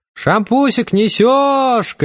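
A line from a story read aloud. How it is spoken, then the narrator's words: Shouted. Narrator (Russian): крикнула Тамара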